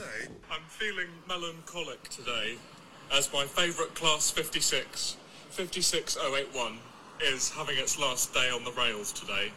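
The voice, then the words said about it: British English accent. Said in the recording (German): “dieser widerliche britische Akzent”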